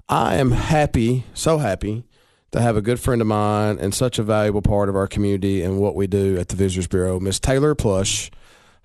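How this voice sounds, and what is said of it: Distorted, hoarse voice from a cold. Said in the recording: “a little bit of a distorted voice from getting over a little bit of a cold ... Your voice sounds better than mine ... Just lost my voice.”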